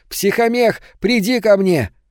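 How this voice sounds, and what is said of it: Child's voice. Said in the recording (Russian): “голосом ребенка.”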